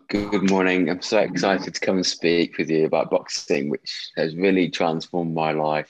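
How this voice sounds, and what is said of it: English accent. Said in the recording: “you're hearing the accent of ... you can probably tell there's the English accent there”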